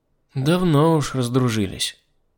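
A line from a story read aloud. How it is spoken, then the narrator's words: Sighing. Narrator (Russian): вздохнула Марина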